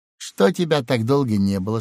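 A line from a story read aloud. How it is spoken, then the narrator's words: Tender question. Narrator (Russian): спросил он ласково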